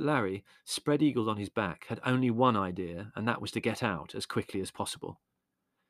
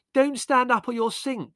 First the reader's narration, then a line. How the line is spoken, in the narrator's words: screeched Margot